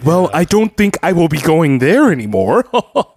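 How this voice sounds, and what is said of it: Proper upper-crust American nerd accent. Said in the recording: “He just sounded proper. He had that Niles from Frasier kind of upper crusty American nerd accent. ... that sounds like they're British, but they're just proper.”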